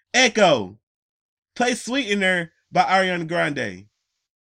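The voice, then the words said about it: Yelling. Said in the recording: “I'm yelling”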